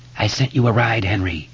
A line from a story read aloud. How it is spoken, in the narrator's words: the voice whispered